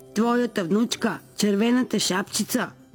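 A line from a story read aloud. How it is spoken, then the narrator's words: Disguised wolf voice. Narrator (Bulgarian): казал вълкът с преправен глас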